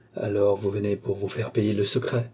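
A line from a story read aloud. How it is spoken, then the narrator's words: Menacing. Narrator (French): dit Balzamo d'un ton menaçant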